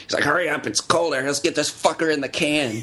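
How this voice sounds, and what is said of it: Nasal imitation of another person's voice. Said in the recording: “good David Lynch impersonation. That's really pretty good. ... I sound like I'm from the '20s. ... like that is not bad. ... It's the nasal from the constant pollution.”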